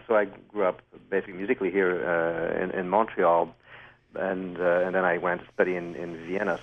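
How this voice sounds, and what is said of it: French-Canadian accent. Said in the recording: “I'm French-Canadian... You may hear that a little bit in my accent.”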